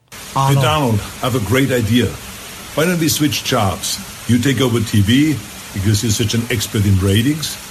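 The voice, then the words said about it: Strong foreign accent. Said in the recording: “he still can't get rid of the accent”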